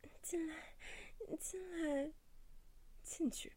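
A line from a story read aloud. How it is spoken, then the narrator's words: Pleading. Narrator (Chinese): 嘴里一处哀求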